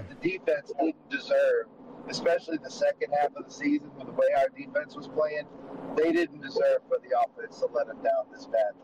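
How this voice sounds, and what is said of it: Hoarse, worn-out voice. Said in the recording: “my voice is almost shot”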